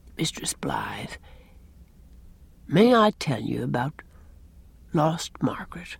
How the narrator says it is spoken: Captain Jim said very softly

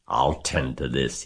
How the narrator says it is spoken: he chuckled

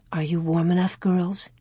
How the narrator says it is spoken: Ma whispered

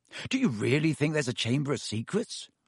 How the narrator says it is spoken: Ron asked Hermione

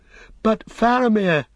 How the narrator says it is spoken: cried Pippin

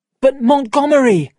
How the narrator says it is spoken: cried

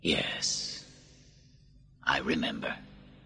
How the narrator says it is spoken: Marcus softly said

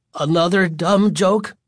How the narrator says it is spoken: Michael asked, his voice still trembling with fear

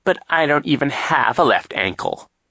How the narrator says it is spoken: he said in a whiny voice

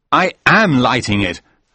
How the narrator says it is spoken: I said angrily

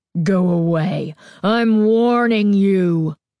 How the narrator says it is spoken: Carly Beth growled

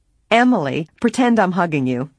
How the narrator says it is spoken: Nancy said with a laugh

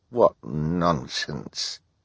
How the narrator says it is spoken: Hal muttered

